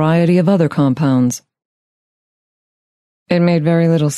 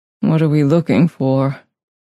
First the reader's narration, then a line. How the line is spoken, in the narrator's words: He asked in a weak voice